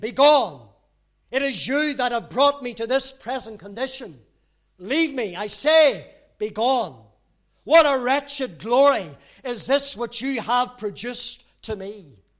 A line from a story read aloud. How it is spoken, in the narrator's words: as his distress was increased by their presence, he repeatedly and loudly exclaimed